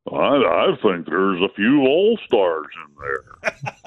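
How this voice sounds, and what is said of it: Lou Brown impression. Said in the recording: “your best Boch impression? ... That's actually a Lou Brown impression.”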